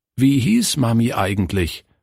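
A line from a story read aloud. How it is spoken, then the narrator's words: Plain. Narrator (German): fragte Günther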